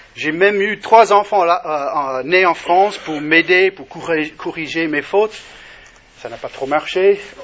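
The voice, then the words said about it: Non-native accent in French. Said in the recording (French): “il n'est pas né à La Rochelle, hein. Ni à La Rochelle, ni dans l'Hexagone. Bon, j'ai un accent”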